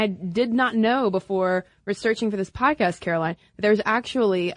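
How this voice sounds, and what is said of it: Usual voice. Nothing is said of it.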